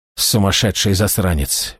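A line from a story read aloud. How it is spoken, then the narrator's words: Admiring mutter. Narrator (Russian): бормотал он, чувствуя, как его переполняет странное восхищение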